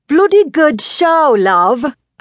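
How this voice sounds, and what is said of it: Put-on British accent. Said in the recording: “I'm going to speak with a British accent. ... doing my best Monty Python imitation.”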